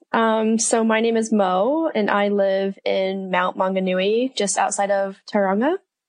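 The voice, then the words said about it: American accent. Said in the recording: “a bit of an accent ... originally from the States. So I'm from Colorado”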